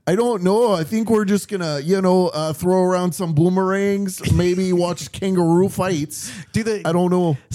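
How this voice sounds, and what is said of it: Put-on Canadian accent. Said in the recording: “the Canadian accent”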